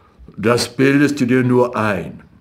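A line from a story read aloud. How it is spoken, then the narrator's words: Plain. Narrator (German): sagte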